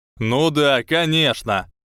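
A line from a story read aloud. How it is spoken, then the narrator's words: Shouting. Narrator (Russian): кричал Энтони Голдштейн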